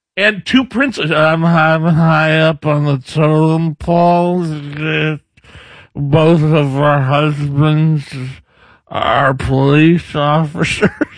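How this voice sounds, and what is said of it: Joe Biden impression. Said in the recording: “a pretty good Biden impression”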